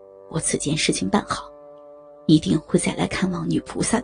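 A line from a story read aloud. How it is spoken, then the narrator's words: Low voice. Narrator (Chinese): 低声道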